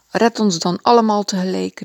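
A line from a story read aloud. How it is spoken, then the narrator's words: Exclaiming. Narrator (Dutch): riep hij uit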